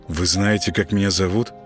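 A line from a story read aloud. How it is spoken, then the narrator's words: Bewildered, strained utterance. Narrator (Russian): Ничего не понимая, только и смог выдавить из себя Володаров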